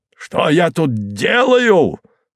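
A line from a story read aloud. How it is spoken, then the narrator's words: Roaring. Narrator (Russian): взревел он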